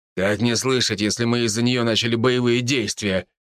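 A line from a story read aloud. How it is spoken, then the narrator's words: Wry snort. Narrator (Russian): хмыкнул Хосе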